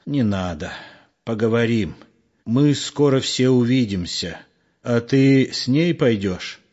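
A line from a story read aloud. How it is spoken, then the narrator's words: Direct question. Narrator (Russian): прямо спросил Егор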